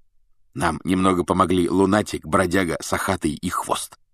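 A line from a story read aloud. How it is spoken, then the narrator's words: Whisper in ear. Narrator (Russian): шепнул Фред Гарри на ухо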